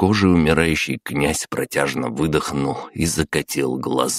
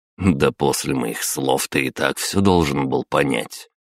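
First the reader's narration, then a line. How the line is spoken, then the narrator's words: Snorting. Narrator (Russian): хмыкнул я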